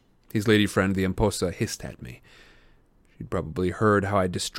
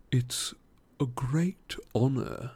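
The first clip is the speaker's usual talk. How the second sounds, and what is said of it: Silky male character voice. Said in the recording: “he said in a silky voice.”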